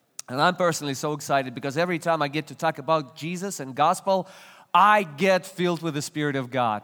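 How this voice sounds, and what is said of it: Non-native English accent. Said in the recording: “English is not my native language, and I'm originally not from the States, you can detect it by the accent.”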